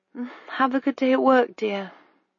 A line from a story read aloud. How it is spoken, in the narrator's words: she mumbled